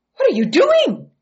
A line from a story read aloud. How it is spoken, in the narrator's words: They gasped